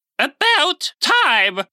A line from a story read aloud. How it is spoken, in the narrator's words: Lady Olga cried